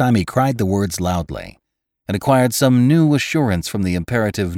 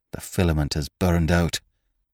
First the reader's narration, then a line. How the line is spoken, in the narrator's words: he muttered